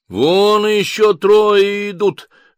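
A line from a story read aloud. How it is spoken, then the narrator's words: Neighbor shouting. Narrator (Russian): закричал сосед справа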